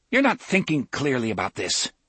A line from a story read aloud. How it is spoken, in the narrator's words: Cuthbert had said coldly